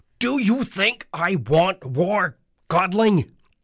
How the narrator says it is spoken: Hades bellowed

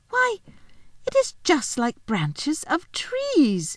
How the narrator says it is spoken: exclaimed Lucy

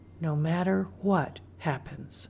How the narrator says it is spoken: she heard Mama whisper

